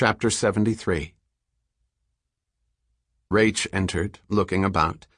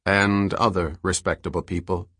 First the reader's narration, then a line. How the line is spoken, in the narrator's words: said Selden